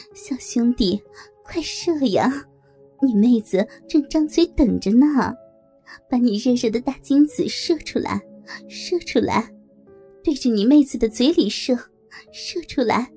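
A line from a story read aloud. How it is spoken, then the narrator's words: Woman sneering. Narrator (Chinese): 梅姐冷笑着说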